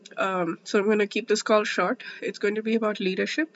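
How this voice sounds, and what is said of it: Voice sounds sick with a cold. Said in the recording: “I'm feeling a little bit under the weather. I don't know if you can hear it in my voice, but I have a cold”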